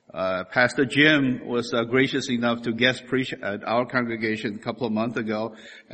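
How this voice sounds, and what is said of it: Slight Chinese accent. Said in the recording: “my little slight Chinese accent”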